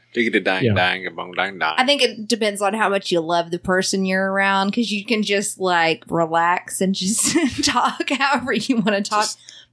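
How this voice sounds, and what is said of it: Southern US accent. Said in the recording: “my Southern accent, I feel like it kind of will drop a little bit ... the Southerness just really comes out”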